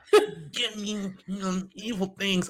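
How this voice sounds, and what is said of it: Imitates another person's voice. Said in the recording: “That's my impersonation of her.”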